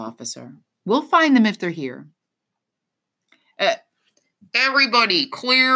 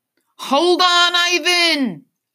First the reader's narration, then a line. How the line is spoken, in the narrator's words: I yell